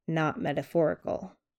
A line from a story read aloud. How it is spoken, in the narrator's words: his dad said dryly